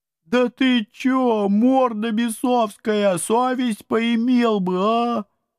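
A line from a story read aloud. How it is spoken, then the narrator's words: Mournful howl. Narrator (Russian): Тоскливо взвыли упыри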